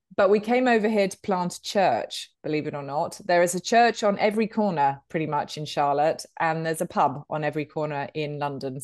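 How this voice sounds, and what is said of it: British English accent. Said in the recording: “as you can tell from the accent, I'm a Brit ... I haven't picked up the accent. In fact, I can't even do an American accent.”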